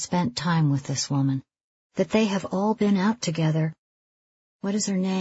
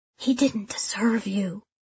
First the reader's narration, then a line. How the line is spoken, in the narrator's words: Ramona whispers